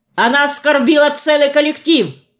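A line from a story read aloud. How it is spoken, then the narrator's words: Shouted out. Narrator (Russian): выкрикнула Нина Ермакова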